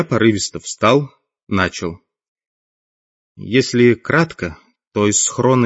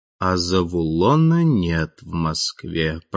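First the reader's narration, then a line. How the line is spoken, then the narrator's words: Drawn out, meaningful. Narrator (Russian): протянул Толик со значением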